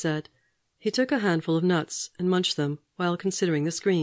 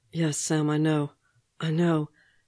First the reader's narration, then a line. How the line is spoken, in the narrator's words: gasping, almost a sob, his face nakedly joyful